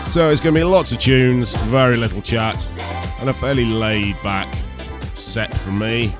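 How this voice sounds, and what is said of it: Congested voice from a cold. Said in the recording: “As you might be able to tell, I've got a bit of a cold.”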